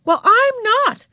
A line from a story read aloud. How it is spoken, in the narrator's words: snapped Beezus